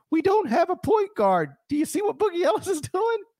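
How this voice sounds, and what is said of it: Exaggerated Southern sports caller accent. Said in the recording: “my Southerner impression was horrendous, obviously, and proudly horrendous... the average Memphis caller impression”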